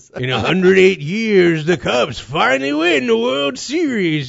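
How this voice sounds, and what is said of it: Impression of Scorch from Weird News. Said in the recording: “Have Scorch on from Weird News ... We're doing voices ... I finally coaxed you into doing that impression.”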